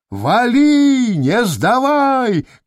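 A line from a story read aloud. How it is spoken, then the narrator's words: Shout. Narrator (Russian): кричал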